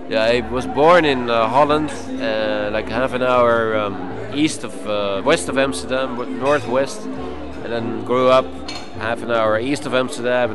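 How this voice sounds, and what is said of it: Noticeable foreign accent in English. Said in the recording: “people listening will have noticed by now your accent and wonder, you know, where your accent's from”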